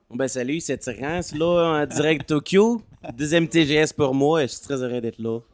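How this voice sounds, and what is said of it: Québécois French accent. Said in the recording (French): “premier et dernier accent québécois du podcast”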